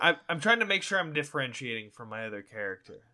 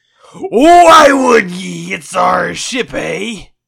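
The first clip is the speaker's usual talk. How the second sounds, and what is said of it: Piratey character voice. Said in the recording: “He's really piratey all of a sudden.”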